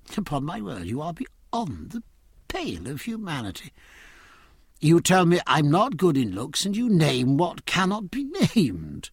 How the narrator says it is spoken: Wogan, starting to laugh

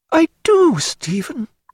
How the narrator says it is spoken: cried Diana, blushing

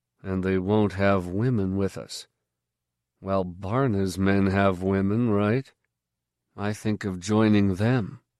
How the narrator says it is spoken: he said dryly

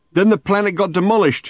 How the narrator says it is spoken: he shouted

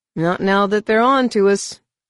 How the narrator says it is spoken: Han said gloomily

